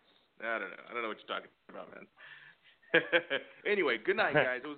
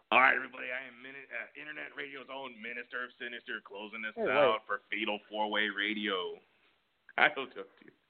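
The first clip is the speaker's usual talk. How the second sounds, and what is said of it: Impression of host Chuck. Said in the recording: “Best Chuck impression. ... Do your Chuck. ... Your Chuck kind of sounds like that guy Dale who's always calling.”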